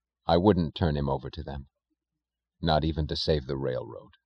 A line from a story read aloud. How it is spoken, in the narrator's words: he said, his voice tense and low